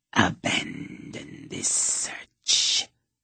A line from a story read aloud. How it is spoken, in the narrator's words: the snake hissed